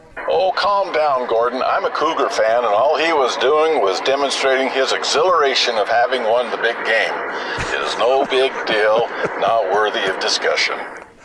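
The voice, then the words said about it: Polished radio announcer voice. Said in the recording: “the big radio voice ... got a pretty good radio voice”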